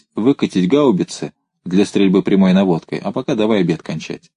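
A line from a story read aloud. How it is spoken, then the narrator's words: Calm. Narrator (Russian): спокойно проговорить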